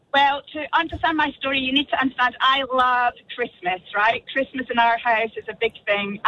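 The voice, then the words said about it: Scottish accent. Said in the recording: “your amazing Scottish accent”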